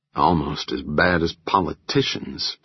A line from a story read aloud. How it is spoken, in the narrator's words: Paul grumbled